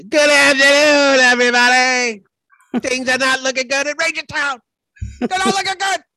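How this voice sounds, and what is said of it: Imitates another person's voice. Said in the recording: “That was a great Mad Dog impersonation”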